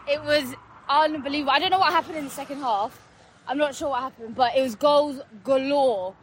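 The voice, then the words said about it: Hoarse, strained voice. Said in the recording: “My voice is gone. ... My throat is hurting.”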